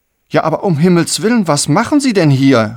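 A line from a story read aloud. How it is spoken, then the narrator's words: Called out. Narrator (German): rief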